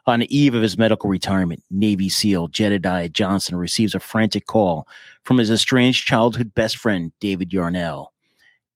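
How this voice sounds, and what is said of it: Announcer-style radio voice. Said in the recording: “Let me get my radio voice going.”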